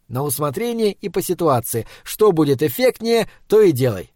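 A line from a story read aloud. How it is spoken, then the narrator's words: Cheerful. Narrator (Russian): сказал я весело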